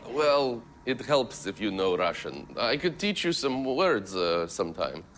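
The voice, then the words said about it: Put-on Russian accent. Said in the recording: “that Russian accent”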